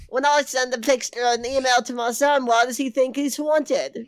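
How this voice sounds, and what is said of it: Usual voice. Nothing is said of it.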